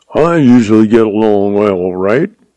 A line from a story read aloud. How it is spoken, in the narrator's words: he laughed